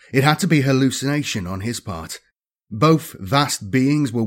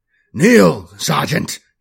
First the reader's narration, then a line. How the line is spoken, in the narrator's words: barked